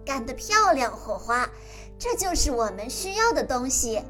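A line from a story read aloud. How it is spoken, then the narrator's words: Laughing. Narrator (Chinese): 艾薇笑着说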